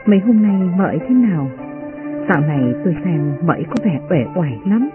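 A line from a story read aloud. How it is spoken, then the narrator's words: Soft question. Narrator (Vietnamese): Uyên Ương khẽ hỏi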